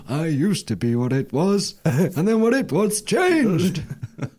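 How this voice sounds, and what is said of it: Old man voice. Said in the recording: “That's such a good old man voice.”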